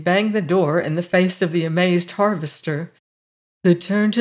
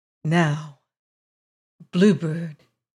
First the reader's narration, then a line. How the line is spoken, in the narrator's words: he said gently